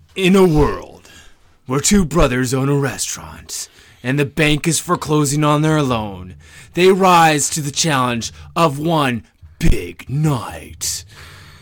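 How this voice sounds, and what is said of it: Dramatic movie trailer narrator voice. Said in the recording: “like the honest trailers guy.”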